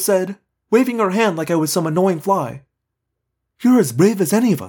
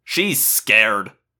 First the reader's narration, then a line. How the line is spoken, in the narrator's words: Marco sneered